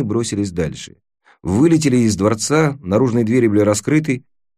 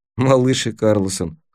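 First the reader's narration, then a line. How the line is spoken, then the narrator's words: Wry snort. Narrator (Russian): хмыкнул я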